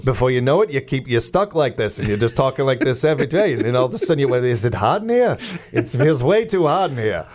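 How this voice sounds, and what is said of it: Put-on comedian's accent impression. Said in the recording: “Jackie Mason ... I started doing that accent ... That is by far and away my favorite accent to do. But you have to be careful. You don't want to overdo it.”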